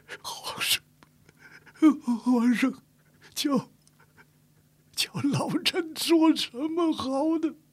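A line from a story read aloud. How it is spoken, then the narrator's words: Tearful, hoarse, trembling. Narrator (Chinese): 刘统勋老泪纵横，阴哑颤声说道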